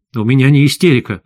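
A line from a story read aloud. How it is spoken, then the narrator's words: Angry. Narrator (Russian): зло сказал я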